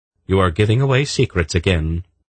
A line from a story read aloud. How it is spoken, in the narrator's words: Polgara said firmly